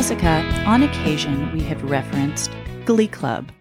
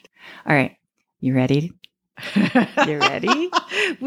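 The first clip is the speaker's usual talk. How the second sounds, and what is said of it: Evil-sounding voice. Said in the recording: “evil voice”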